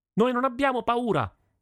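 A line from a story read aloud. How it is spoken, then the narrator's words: Boy shouting from back. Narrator (Italian): urlò un ragazzetto dal fondo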